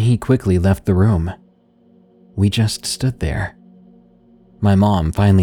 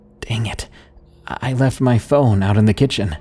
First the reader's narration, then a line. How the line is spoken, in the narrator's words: she said, her voice shaking